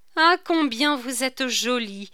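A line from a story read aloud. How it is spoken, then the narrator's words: Little girl's exclamation. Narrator (French): s'écria la petite Bretonne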